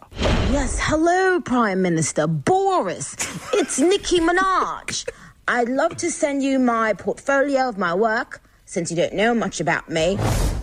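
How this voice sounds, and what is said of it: Weak put-on British accent. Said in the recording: “Not a great British accent.”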